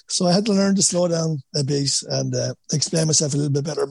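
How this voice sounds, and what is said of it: Irish Wexford accent. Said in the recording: “nobody could understand my Wexford accent”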